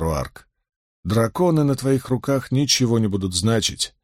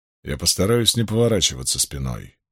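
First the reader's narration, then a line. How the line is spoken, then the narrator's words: Dry reply. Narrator (Russian): сухо отозвался Ранд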